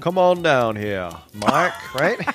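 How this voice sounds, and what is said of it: Put-on exaggerated Southern US drawl. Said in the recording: “lovely southern accents ... You sound like Foghorn Leghorn.”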